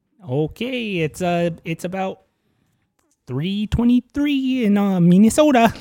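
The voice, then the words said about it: Put-on Minnesota regional accent. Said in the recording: “You got any other regional regional accents you want to do?”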